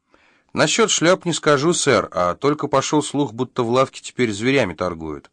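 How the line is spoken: Plain reply. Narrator (Russian): ответила Полли

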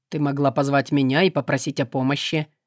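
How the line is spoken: Cold remark. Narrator (Russian): холодно заметил демон

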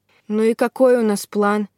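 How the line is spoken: Lazy curious question. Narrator (Russian): Лениво полюбопытствовала

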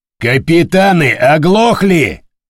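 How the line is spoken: Barked impatiently. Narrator (Russian): рявкнул Помпилио, который до сих пор не услышал командиров подчиненных кораблей

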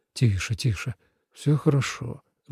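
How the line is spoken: Gentle speech. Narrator (Russian): мягко сказал он

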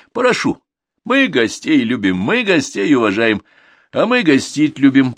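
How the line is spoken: Laughing. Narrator (Russian): посмеялся Корытин

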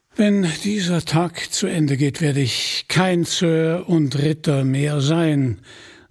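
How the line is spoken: Sighing. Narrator (German): seufzte

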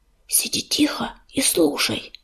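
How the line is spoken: Whisper. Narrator (Russian): прошептал он

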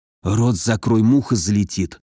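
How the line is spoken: Whispered. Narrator (Russian): шепнул мне Мороз

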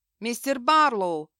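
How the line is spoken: Shouting. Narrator (Russian): крикнул Купер

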